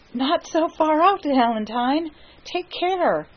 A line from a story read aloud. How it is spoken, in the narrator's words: he gasped